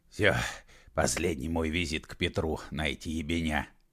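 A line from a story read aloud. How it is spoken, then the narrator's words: Hoarse wheeze. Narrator (Russian): прохрипел он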